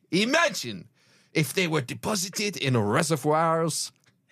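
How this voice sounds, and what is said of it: Put-on French accent. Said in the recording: “Where was that French accent ... Into Belgian accents.”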